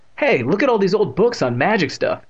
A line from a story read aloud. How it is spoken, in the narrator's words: Andy exclaimed